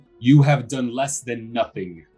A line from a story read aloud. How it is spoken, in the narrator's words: Strahd growls